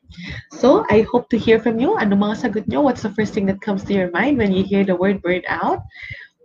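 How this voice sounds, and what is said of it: Voice altered, sounds congested. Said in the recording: “I'm nursing a cold right now. So that's why my voice is quite different.”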